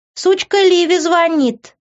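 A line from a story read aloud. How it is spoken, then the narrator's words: Shouted. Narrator (Russian): прокричала девушка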